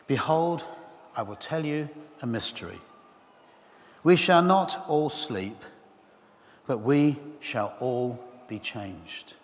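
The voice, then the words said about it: Slow, deliberate reading. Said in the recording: “I'm going to read it slowly.”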